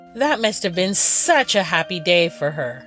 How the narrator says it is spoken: Aristea exclaimed

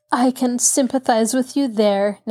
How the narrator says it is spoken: Nancy laughed

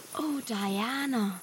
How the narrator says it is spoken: breathed Anne

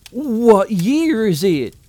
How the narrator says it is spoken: blurted

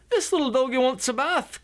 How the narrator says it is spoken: cried the little girl

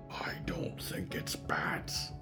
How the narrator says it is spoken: Mort whispered

